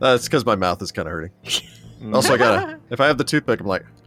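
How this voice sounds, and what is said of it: Usual voice. Nothing is said of it.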